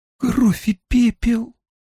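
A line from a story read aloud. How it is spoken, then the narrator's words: Breathed out. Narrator (Russian): выдохнула она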